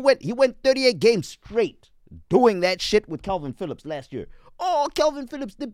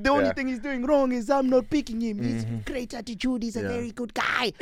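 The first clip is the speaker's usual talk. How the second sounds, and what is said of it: Impression of Pep Guardiola. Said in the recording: “Pep doing the. I saw Pep doing the typical ... That was a pretty good impression ... Bro, that was a great impression.”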